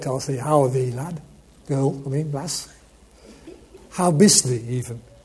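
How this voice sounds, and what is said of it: Put-on Yorkshire dialect. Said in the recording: “in Yorkshire dialect”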